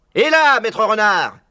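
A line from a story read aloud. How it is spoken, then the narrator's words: Bellowing. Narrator (French): vociférait Buns en se penchant de son engin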